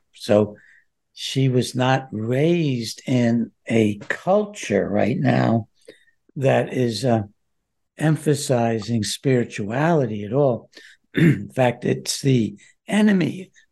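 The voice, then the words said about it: Hoarse voice. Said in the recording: “Excuse my hoarseness. This is just a little allergy.”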